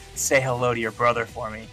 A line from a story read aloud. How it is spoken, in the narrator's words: He whispered